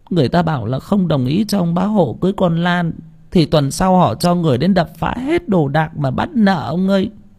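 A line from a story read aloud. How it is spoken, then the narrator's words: Whimpering, near tears. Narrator (Vietnamese): Bà Lành mếu máo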